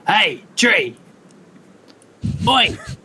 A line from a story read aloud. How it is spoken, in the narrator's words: I'm just gonna yell out